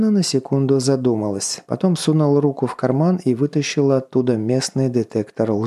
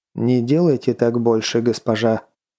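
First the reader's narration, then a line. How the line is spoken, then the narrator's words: Cold, disrespectful. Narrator (Russian): холодно и безо всякого почтения произнес Мираж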